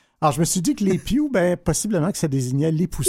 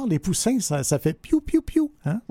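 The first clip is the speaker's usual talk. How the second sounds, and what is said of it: Imitates chirping baby chicks. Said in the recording (French): “faisant une imitation d'oiseau”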